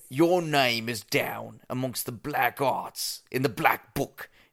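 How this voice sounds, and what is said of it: Bad put-on British accent. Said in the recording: “read a couple in a bad British accent”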